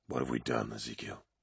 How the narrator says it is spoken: whispered Aximand

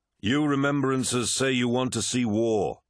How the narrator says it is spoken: said Horus, his voice easily carrying to the furthest corners of the hall

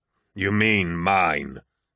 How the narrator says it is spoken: growled the War Master

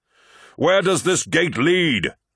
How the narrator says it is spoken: shouted Horus over the wind and the howling of wolves

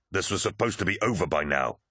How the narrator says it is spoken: spat Loken

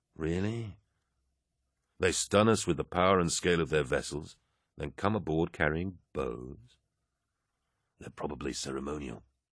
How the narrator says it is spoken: Axeman murmured

